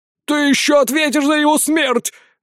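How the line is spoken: Shouting out. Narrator (Russian): выкрикнул Унуртан

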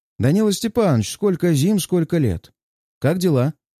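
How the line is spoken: Cheerful reply. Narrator (Russian): бодро отзывается он

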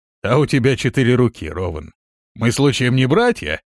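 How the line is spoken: Cheerful laughing question. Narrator (Russian): Весело смеясь, спросил Прокс

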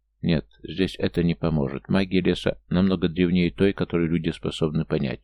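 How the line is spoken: Quiet reply. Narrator (Russian): тихо ответил

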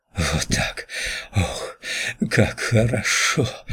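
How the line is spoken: Whisper. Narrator (Russian): прошептала она

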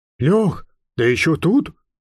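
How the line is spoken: Quiet, conspiratorial. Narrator (Russian): Его голос звучал тихо, почти заговорщицки

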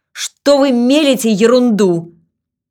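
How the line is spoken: Flustered angry shout. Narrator (Russian): Начальник отдела снабжения ... краснел и, наконец, не выдержав, крикнул

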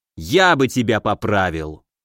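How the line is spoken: Growling after surprise. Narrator (Russian): Справившись с удивлением, рыкнул Стародубский

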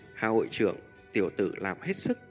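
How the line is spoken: Smiling. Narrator (Vietnamese): Hạ Vạn Kim mỉm cười nói

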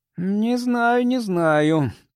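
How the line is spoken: Hesitant drawl. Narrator (Russian): протянул Билка

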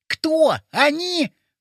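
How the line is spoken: Almost shouting. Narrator (Russian): почти закричал Вовчик

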